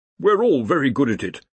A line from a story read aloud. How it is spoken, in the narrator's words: said the Dean cheerfully